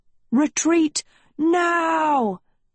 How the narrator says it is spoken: Tedros cried

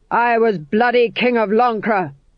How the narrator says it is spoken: shouted

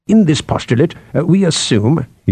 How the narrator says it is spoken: he said

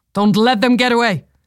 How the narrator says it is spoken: Somroth shouted

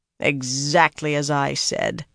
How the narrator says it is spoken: Pevara growled

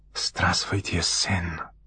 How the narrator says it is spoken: muttered Artemis, his accent flawless

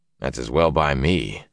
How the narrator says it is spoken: growled

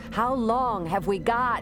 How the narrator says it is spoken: Shada shouted to be heard over the wind

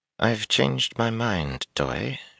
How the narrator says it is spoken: she murmured

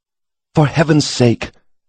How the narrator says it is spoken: the clerk exclaimed

